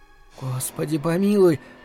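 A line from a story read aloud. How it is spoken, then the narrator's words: Whispered. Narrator (Russian): прошептала Марина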